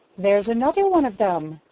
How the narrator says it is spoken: chuckled Jenny

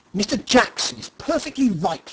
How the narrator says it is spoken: he snapped

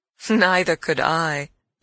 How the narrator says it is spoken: I laughed again

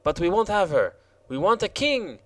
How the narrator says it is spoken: exclaimed the Jacques Rose

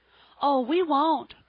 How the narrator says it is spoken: cried both of the children, perfectly overwhelmed with remorse

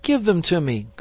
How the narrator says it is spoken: cried Ernest

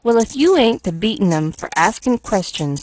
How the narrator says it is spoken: sighed the boy impatiently

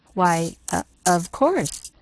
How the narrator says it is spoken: faltered Miss Polly

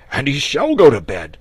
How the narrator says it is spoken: cried the dragon

